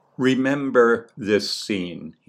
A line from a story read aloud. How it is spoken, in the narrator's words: he said